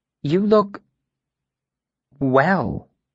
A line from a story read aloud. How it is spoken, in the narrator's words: she said hesitantly